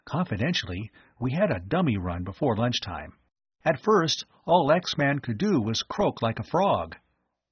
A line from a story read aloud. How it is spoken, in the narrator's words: Tom whispered to Phil